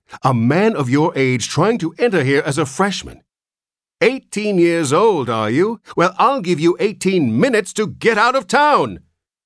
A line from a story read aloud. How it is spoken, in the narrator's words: shouted